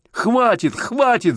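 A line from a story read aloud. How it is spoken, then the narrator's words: Screamed. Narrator (Russian): закричал он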